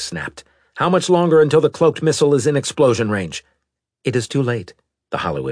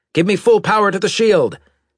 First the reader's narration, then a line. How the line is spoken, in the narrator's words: Maddox shouted